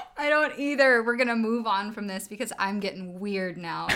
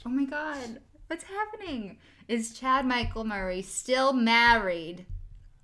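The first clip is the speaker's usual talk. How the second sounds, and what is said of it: Put-on Long Island accent. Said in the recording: “Why are you from Long Island now? What was that voice?”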